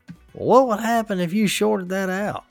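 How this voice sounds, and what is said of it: Twangy imitation of another person's voice. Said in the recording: “he literally sounds like a banjo talking ... That was a uh, good impression.”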